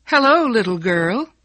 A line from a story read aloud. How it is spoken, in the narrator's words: a young man called out cheerfully